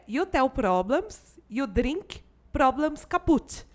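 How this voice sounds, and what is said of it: Put-on Russian accent in English. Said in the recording (Portuguese): “imitando inclusive o sotaque dela, tá, gente? É um sotaque russo”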